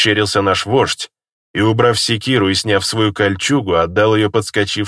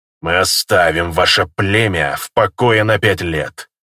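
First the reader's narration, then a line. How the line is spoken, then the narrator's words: Growling reply. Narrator (Russian): прорычал в ответ его соперник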